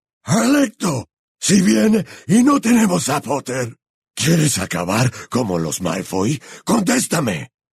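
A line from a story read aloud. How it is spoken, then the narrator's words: Bellowed, pounding door. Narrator (Spanish): bramó, aporreando la puerta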